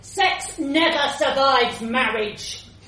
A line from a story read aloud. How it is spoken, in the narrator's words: Dad shouted into the suburban street